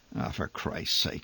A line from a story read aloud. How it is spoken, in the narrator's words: he muttered amid the thrumming uproar